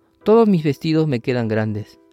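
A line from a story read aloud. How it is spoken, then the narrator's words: Sighing. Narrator (Spanish): Solo suspiró y dijo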